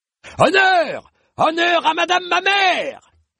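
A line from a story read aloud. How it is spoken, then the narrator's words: Fervent shout. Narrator (French): cria une voix fervente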